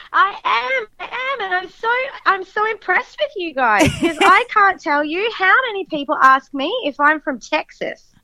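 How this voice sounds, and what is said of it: Australian accent. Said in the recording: “you have the nice accent ... are you Australian? ... I right away thought you were Australian. You have that, yeah. You have that sexy...”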